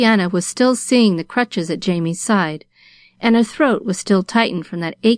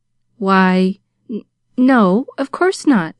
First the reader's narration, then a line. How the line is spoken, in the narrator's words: stammered Pollyanna